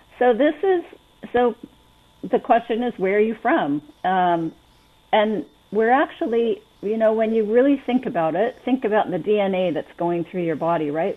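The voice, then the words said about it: Slight non-local accent. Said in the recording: “Can you tell by my accent that I'm not local? ... Yeah, a little bit.”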